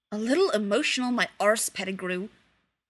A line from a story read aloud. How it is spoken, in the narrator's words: Sirius growled